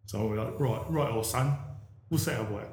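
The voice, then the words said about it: Put-on Cockney accent. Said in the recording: “I am going to affect a Cockney accent”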